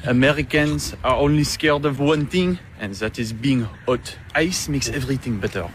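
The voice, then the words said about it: Speaks with a foreign accent. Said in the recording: “He has an accent.”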